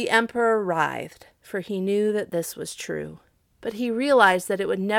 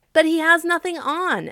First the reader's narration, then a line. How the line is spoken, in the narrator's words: at last cried all the people